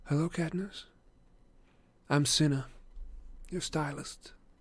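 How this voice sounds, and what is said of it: Quiet voice. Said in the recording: “in a quiet voice, somewhat lacking the Capitol's affectations”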